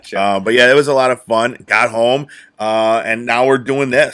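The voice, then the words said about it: Rough, hoarse voice. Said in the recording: “my voice is a little rough, just yelling”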